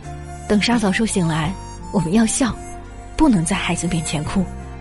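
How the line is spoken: Husband, choked with sobs. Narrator (Chinese): 丈夫哽咽的说

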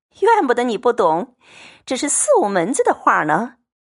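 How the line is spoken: Laughing. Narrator (Chinese): 凤姐笑着说

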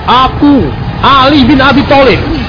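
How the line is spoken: Calling out. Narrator (Indonesian): ia berseru

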